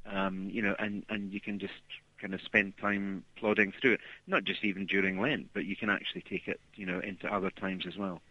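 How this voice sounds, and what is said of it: Scottish accent. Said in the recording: “that's a Scottish accent I hear”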